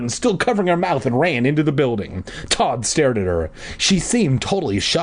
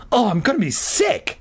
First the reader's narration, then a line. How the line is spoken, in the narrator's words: Regina cried